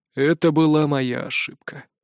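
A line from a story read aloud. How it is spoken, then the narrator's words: Sighing. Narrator (Russian): вздохнул отец Урк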